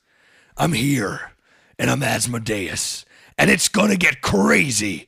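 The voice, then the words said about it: Performs a demonic cartoon character voice. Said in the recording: “do the voice. I said, Blake, I can't do the voice. But I can do the voice.”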